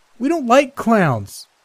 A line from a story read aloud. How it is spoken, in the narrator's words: one of the girls attending the party shouted